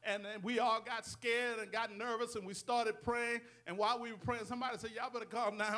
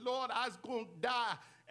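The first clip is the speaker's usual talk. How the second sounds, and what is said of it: Thick French accent imitation. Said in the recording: “She had that thick French accent.”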